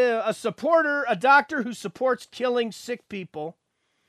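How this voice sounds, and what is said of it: Usual voice. Nothing is said of it.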